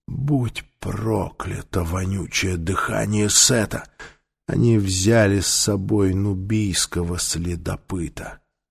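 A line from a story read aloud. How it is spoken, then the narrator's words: Sudden upset mutter. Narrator (Russian): Вдруг Таита расстроенно пробормотал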